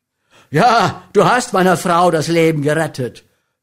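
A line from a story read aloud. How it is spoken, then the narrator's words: Thundering. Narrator (German): donnerte er William an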